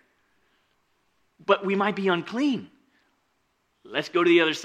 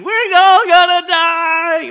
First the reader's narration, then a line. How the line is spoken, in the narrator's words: some of them are just screaming